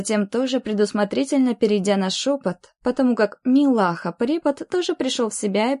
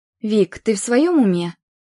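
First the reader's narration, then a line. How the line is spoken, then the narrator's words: Angry hiss. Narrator (Russian): сердито зашипела на подругу Оля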